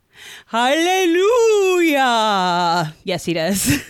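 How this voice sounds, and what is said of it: Strange imitated backwards-sounding character voice. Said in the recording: “That's my attempt at imitating the man from another place ... I thought you were having a seizure for a second ... I can't talk backwards naturally”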